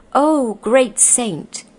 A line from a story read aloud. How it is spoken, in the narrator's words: cried out